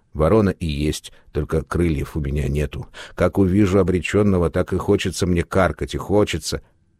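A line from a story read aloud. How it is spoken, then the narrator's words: Barely audible old mumbling. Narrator (Russian): Еле слышно бормотала старая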